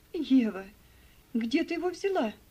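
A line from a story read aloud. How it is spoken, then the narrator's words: Exclamation. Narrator (Russian): воскликнула мисс Офелия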